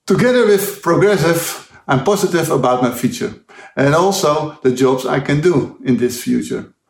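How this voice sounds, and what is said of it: Dutch accent. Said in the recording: “from the Netherlands, as you would have gathered from the accent”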